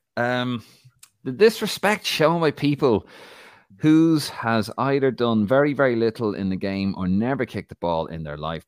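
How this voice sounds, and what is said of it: Put-on Irish accent. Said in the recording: “in his accent, please? ... Let's hear your Irish accent.”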